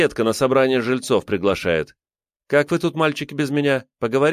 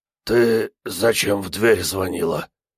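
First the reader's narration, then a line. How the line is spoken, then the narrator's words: Hoarse, excited. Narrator (Russian): Голос у Фомина хрипел от возбуждения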